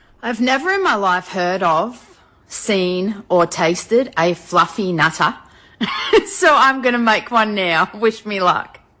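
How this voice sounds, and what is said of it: Australian accent. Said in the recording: “A woman from Australia, she's got an accent”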